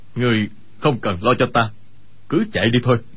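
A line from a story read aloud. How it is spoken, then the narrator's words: Lowered voice. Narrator (Vietnamese): Y hạ giọng nói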